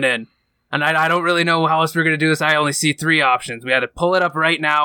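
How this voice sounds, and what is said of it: Usual voice. Nothing is said of it.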